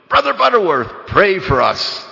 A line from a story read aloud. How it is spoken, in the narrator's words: he'd suddenly shout